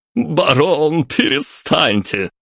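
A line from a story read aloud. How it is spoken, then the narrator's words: Laughing. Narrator (Russian): рассмеялся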